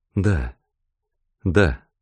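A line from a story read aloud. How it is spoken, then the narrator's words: Quiet reply. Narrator (Russian): тихо ответила Роберта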